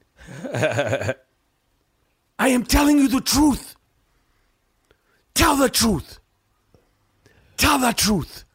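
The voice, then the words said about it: Imitates another person's accented voice. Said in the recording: “my impression of Will Smith in Concussion ... your accent”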